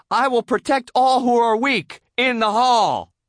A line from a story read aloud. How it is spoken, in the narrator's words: SpongeBob shouted